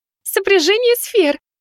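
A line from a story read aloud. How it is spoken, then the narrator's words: Ringing laughter. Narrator (Russian): звонко рассмеялась моя небесная противница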